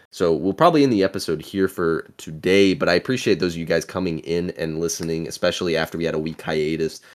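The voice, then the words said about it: Strained, failing voice. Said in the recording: “this is probably the point where my voice is going to start giving out ... working with us and our illness”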